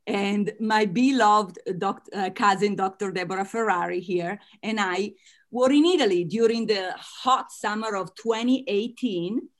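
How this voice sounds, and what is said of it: Italian American accent. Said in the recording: “As you can tell from my accent, I am Italian American.”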